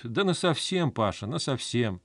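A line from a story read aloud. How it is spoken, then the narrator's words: Wife's calm homely reply. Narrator (Russian): жена его спокойно так по-домашнему отвечает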